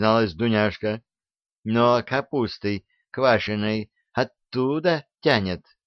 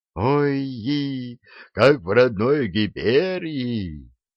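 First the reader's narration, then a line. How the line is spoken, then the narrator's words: Near-ecstatic moan. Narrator (Russian): чуть не в экстазе простонал гигант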